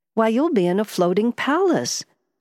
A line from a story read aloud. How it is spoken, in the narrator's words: Francesca exclaimed